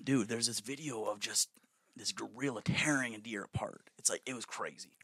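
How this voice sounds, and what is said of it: Imitates another person's voice. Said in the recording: “You have to do your Joe Rogan.”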